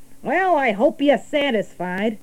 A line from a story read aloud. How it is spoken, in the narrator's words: sneered the rat